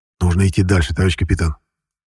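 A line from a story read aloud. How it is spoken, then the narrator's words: Quiet suggestion. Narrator (Russian): негромко предложил я Щеглову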